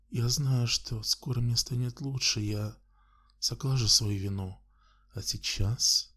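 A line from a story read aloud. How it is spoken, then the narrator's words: Sultry passionate whisper. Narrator (Russian): Ее голос превратился в знойный, пропитанный страстью шепот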